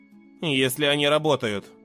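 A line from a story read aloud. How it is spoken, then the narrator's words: Gloomy. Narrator (Russian): мрачно добавил я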